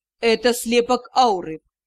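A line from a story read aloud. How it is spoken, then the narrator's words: Said grimly. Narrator (Russian): мрачно произнес Риан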